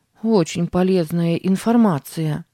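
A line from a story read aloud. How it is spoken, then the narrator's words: Grumbling. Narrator (Russian): проворчала Сара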